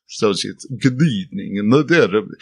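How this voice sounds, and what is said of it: Poor cheesy Romanian accent. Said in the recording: “Abraham has a kind of Eastern European, Romanian accent ... that's a really cheesy accent, but I'm very bad in any type of accent. I do accents poorly”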